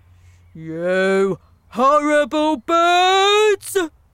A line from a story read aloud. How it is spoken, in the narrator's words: He shouted